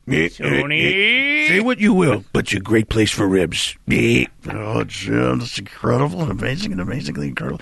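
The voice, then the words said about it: Imitates another person's voice. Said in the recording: “your incredible impersonation ... Impersonation”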